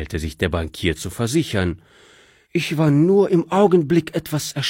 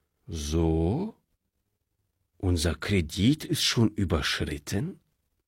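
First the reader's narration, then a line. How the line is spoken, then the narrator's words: Calm question. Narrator (German): fragte der Direktor, wie ruhig er die Frage stellen konnte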